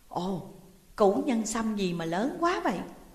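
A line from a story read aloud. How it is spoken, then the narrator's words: Old man's surprised exclamation. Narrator (Vietnamese): Lão thủ quỷ đứng gần bao tải nhất, vốn mắt kém, lúc đầu nhìn thì không rõ, ngạc nhiên thốt lên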